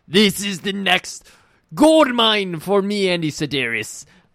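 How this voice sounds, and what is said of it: Put-on non-American accent. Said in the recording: “I thought Andy Sedaris was American. ... I'm doing an accent so people know I'm talking to someone else.”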